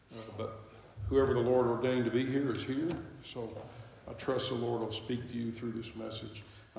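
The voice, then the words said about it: Strained, unwell-sounding voice. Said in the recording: “I'm not in my best voice, as you can tell, but pray for me that I'll be able to hold up and speak”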